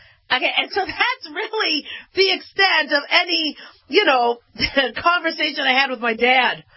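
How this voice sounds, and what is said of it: Usual voice. Nothing is said of it.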